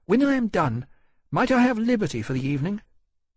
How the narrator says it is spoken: she said, a little nervously

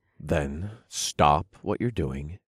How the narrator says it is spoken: I grunted

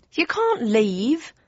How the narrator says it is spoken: cried Aubrey Jam, hoop defence

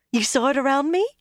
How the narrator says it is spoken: she said excitedly

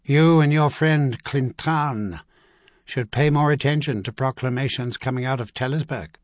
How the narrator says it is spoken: Aplin Armagh said coldly

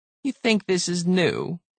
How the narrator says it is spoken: It sneered

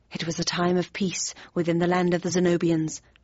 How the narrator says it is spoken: muttered quickly

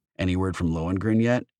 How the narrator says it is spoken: H asked

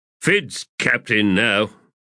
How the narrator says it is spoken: Arm growled

